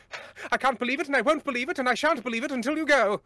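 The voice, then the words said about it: Exaggerated transatlantic accent. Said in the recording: “You can't do a British accent, but try and do one. So you start talking like this ... I love the transatlantic accent so much ... The accent from nowhere.”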